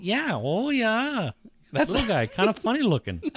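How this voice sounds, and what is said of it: Decent put-on Minnesotan accent. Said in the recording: “You do a decent Minnesotan accent there”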